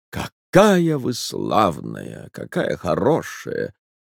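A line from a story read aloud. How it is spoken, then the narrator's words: Weak, sickly voice. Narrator (Russian): начал он немного погодя слабым голосом, точно больной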